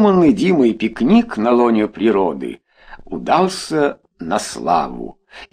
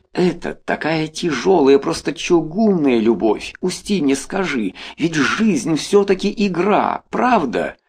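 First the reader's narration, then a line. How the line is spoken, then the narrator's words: Whisper. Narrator (Russian): Она увидела спускавшегося по тропинке Толю и сказала шепотом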